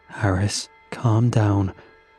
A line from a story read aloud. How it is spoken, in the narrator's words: I said, my voice shaking